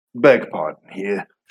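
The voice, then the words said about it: Slips into another character's accent. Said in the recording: “I copied the wrong accent there... I keep going into our new friend Amino's accent.”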